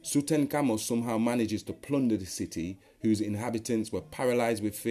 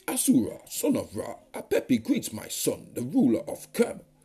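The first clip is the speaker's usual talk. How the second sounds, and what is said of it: Put-on character voice. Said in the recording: “I'm going to put it in a Hyksos voice.”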